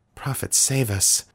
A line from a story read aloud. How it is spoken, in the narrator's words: Daniel murmured